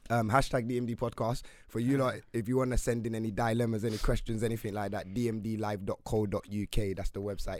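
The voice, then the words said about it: Strained, partly lost voice. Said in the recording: “my voice is a bit gone”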